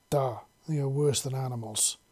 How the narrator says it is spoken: Sasha said gloomily

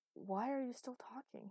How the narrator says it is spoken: He said harshly

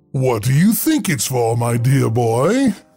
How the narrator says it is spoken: The librarian's voice boomed with a chuckle

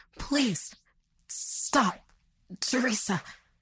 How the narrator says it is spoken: he sputtered out in pain

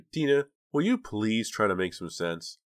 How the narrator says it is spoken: sighed

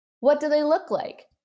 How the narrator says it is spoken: He shouted

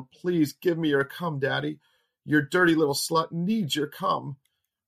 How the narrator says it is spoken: Between her moans and screams, she yelled

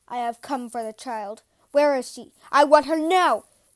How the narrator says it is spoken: he roared

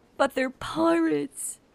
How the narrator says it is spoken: heard wail

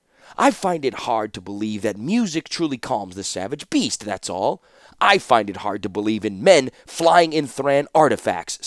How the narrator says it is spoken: snapped Felden

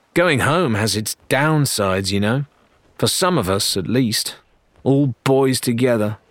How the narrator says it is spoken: added sullenly

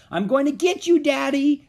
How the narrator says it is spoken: she shouted

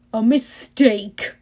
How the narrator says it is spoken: Hades roared

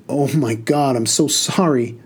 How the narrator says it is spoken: the lady cried

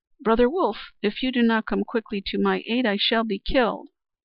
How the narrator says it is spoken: Teenchy Duck immediately cried

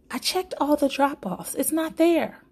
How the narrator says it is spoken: Figure 1 yelled

